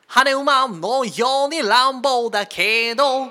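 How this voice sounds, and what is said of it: Imitates a singer's voice. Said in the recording (Japanese): “ポルノグラフィティさんのモノマネ ... 似てる特徴掴んでる”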